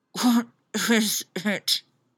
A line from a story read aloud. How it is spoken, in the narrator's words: She muttered, burying her face in the pillow